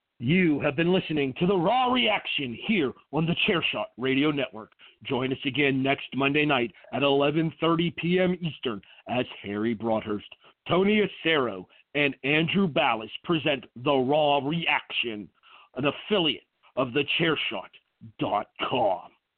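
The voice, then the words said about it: Strong radio announcer voice. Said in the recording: “that actually helps my announcer voice. Not that I recommend being sick to anybody, but it did help me hit the announcer voice a little bit stronger than I normally do.”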